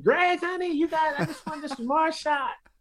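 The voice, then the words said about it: Impression of a woman caller. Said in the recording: “a pretty good impression”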